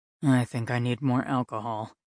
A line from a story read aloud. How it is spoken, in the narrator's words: he muttered to himself